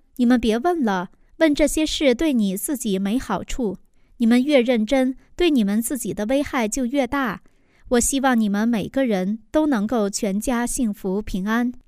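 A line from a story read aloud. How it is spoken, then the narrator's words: Laughing. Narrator (Chinese): 我笑着说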